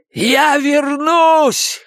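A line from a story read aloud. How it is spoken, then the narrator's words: Hoarse shout. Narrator (Russian): хрипло прокричал он им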